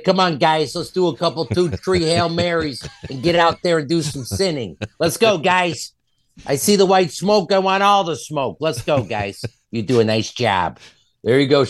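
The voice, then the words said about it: Put-on Chicago accent. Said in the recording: “Chicago accent”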